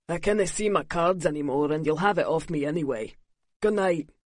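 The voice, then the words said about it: Drunken slurred Scottish accent. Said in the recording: “his Scots accent slurring”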